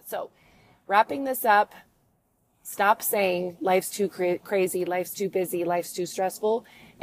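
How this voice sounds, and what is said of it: Voice in poor condition. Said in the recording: “sorry for my voice condition”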